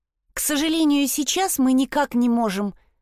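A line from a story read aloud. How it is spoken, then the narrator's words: Timid reply. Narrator (Russian): робко отозвалась Вильма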